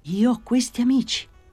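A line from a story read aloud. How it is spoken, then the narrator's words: Astonished exclamation. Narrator (Italian): esclamò nel suo stupore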